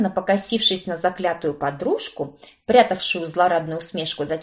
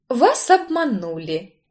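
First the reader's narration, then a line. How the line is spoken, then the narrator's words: Ingratiating, smiling. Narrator (Russian): вкрадчиво улыбнулась я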